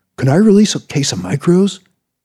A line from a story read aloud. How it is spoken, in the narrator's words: He asked excitedly